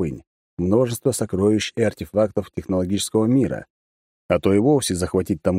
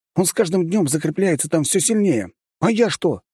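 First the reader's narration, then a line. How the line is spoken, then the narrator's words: Young man exclaiming. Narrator (Russian): снова воскликнул молодой барон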